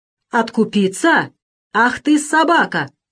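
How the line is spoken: Roar. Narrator (Russian): взревел Веригин

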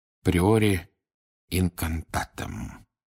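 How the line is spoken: Barely audible mutter. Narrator (Russian): пробормотал он едва слышно

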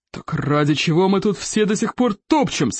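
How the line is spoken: Roared. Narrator (Russian): взревел Стоик

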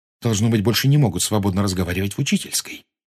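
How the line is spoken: Quiet. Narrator (Russian): тихо сказала Гермиона

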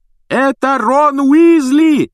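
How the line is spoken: Loud yelling over phone. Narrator (Russian): пуще прежнего орала трубка

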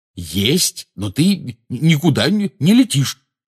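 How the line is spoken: Angry declaration. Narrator (Russian): сердито заявил Рон

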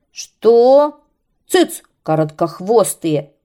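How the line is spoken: Angry shout, serpent. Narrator (Russian): крикнул змей, сердито мотая своим длинным хвостом

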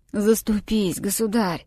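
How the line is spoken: Hoarse old man. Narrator (Russian): Старик сиплым голосом произнес

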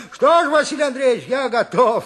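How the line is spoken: Cheerful. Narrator (Russian): весело сказал Никита

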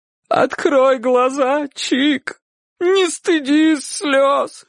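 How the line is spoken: Sobbing. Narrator (Russian): рыдала тетушка

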